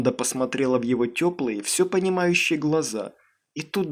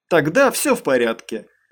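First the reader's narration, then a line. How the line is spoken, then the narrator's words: Laughing. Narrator (Russian): засмеялся Дэйв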